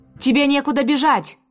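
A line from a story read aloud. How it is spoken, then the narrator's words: Shout from behind. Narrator (Russian): крикнула Исадора у меня за спиной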